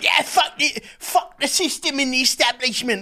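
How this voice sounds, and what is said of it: Put-on Cockney accent. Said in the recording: “talking in like a Cockney accent”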